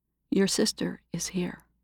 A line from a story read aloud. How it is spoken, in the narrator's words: Cherie whispered in his ear